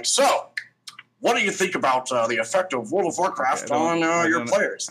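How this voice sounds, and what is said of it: Impression of the host's voice. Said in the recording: “I don't appreciate that impression... I actually thought Travis was talking... No one can do impressions of me”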